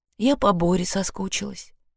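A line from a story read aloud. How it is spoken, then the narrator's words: Sighed. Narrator (Russian): вздохнула Женя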